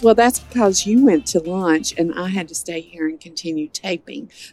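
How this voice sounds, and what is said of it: Slightly hoarse, fading voice. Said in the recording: “I'm losing my voice just a little bit, too.”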